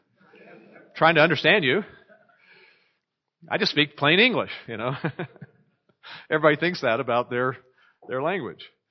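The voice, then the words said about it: American accent with southern tinges. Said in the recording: “I guess I have an American accent blended in with some southern tinges, southern American accent”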